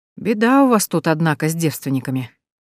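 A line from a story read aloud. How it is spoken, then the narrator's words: Mock-sympathetic sigh. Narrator (Russian): притворно сочувствующе вздохнул Матвей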